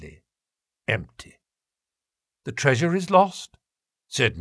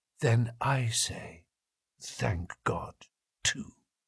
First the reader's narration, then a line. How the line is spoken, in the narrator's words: she whispered